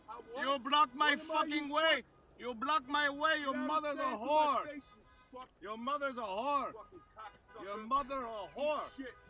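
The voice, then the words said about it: Screaming in an Indian accent. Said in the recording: “I'm screaming a guy at an Indian accent. ... Screaming his mother's a whore.”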